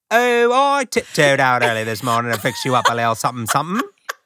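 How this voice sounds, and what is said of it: Put-on British accent. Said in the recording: “Can I do it in a British accent?”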